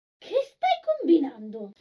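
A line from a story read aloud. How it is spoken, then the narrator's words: Exclaiming from next room. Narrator (Italian): esclamò Enville dalla stanza accanto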